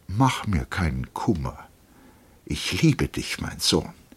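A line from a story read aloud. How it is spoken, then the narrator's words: Plain male. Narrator (German): sagte er lediglich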